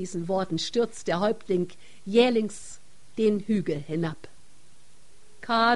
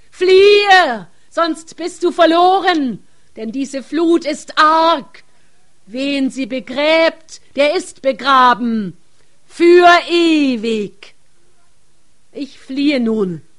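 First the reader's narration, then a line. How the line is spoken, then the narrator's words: Chief screaming. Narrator (German): Schreit der Häuptling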